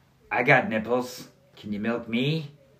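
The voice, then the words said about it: Bad Al Pacino impression. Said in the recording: “That was a horrible Pacino impersonation.”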